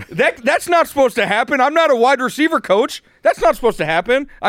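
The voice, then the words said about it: Yelling, raised angry voice. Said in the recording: “I'm yelling.”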